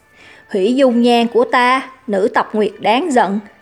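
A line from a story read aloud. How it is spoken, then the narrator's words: Calm, hidden anger. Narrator (Vietnamese): Thanh âm tuy bình tĩnh vẫn ẩn giấu sự tức giận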